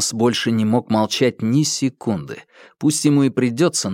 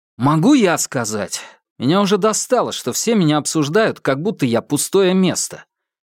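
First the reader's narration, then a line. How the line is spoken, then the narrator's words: Irritated, rising voice. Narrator (Russian): раздраженно спросил он, повышая голос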